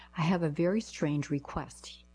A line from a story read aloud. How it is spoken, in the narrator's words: I said